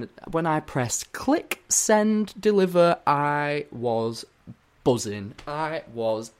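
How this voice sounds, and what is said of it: Usual voice. Nothing is said of it.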